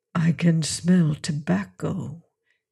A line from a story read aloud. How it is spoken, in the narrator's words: he breathed